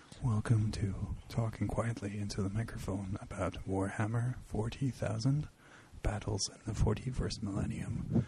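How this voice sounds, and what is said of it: Quiet NPR radio-host voice. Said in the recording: “NPR voice. ... Let's out NPR each other.”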